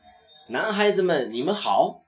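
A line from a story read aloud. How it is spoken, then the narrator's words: Loud. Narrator (Chinese): 他大声地说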